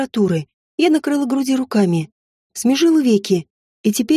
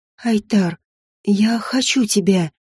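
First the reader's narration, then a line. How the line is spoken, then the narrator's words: Moaning with pleasure. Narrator (Russian): простонала, когда низ живота свело сладким спазмом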